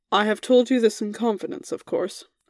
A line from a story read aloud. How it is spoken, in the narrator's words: Arthur said quietly